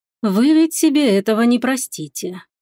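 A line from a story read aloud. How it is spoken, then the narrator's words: Dragon sighing. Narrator (Russian): вздохнул дракон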